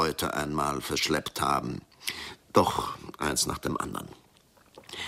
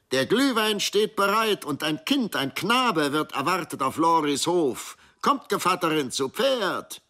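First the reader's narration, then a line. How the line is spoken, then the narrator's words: Call. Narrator (German): eine Stimme rief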